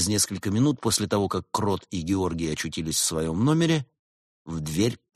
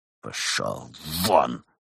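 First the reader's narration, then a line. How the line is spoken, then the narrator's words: Hiss. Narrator (Russian): прошипел он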